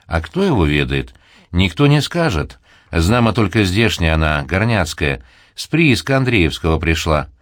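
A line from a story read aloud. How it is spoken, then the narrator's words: Plain. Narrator (Russian): ответил Трифон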